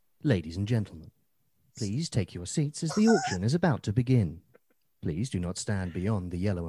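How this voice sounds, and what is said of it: Auction announcer voiceover voice. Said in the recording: “doing a voice over for a Yorkshire auction house ... should I do the voice?”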